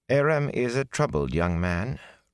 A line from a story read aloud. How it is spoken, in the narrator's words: Rain added sadly